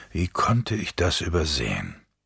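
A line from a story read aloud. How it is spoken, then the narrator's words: Mutter. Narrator (German): murmelte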